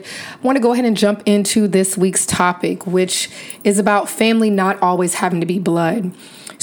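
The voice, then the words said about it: Weakened, lost voice. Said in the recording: “Lost my voice, so I sound a little bit different this week”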